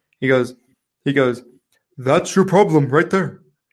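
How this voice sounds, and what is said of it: Imitates another person's voice. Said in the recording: “I'll do my Chris Weir impersonation.”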